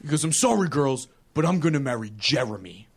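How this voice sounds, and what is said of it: Deeper character voice. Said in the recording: “I don't know why his voice is deeper than my voice when I tell this story, but it is.”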